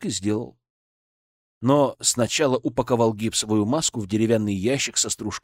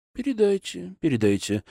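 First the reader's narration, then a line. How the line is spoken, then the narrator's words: Thoughtful agreement. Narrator (Russian): задумчиво согласился Зотов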